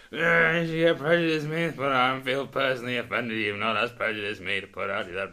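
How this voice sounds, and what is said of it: Loud drunken impression of himself. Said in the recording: “really drunk and loudly saying ... That's a brilliant impression ... I can do a good impression of myself”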